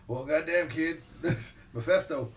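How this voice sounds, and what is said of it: Poor imitation of another person's voice. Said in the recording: “That's a terrible Stone Cold impression.”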